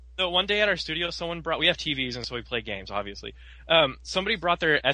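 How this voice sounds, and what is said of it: Usual voice. Nothing is said of it.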